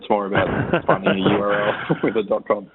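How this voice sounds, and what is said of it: Slight Australian accent. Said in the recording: “just a slight twang ... my Australian accent”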